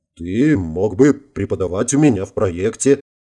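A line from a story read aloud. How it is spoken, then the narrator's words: Snort. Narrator (Russian): хмыкнул генерал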